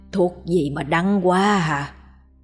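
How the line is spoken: Weak, grimacing old man. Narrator (Vietnamese): lão nhăn mặt, nói với giọng yếu ớt

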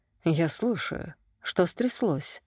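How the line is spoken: Purring. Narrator (Russian): мурлыкнула она

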